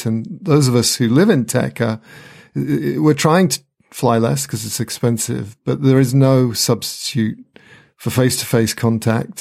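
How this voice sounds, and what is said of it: British accent. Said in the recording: “you can hear my British accent”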